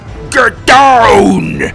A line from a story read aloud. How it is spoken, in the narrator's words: he roared